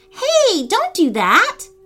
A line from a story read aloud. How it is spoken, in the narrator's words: Lily cried